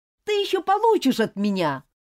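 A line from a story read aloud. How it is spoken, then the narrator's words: Parting shout. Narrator (Russian): прокричал он напоследок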